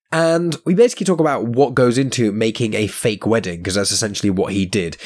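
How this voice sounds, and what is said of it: Slightly croaky voice from a cold. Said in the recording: “it's a little bit croaky ... I've basically had a cold for the last week ... now it's gone to my throat. So that's why I sound a bit odd”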